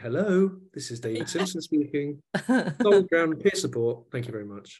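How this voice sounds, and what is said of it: Put-on polite phone voice. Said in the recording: “I get my phone voice out”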